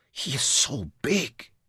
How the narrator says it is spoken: Louisa whispered

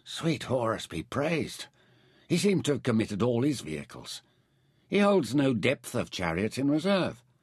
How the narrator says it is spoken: Meron murmured

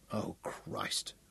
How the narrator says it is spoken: whispered Craig

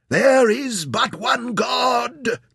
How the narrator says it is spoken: the Agajirs shouted as they killed and killed again

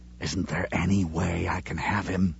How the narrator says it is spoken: He had asked Sean in a whisper

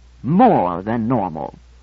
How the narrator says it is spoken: I said haughtily

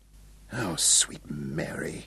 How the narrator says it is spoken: Hal whispered

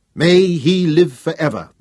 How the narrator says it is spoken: shouted the third time

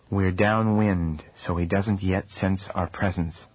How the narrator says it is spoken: said the sage softly

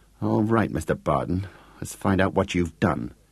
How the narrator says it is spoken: she muttered grimly

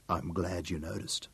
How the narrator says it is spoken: whispered in her ear

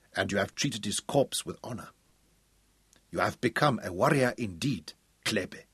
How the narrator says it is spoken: he said softly

